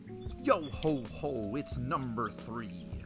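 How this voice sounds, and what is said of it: Put-on pirate accent. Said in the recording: “Why am I doing a pirate accent?”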